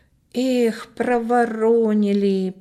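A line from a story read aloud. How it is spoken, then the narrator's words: Drawn-out drawl. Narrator (Russian): протянул Коля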